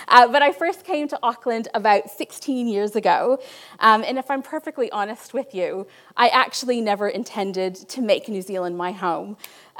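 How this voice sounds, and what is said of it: Canadian North American accent. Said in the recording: “my accent is not local. I am not from New Zealand. I was born in Niagara Falls, Canada. ... where in North America I was from”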